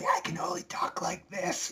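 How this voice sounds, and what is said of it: Hoarse whisper. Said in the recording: “in a hoarse whisper”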